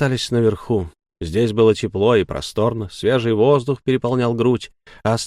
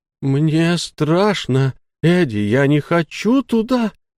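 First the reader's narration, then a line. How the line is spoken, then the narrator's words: Whimpering. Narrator (Russian): проскулил Энакин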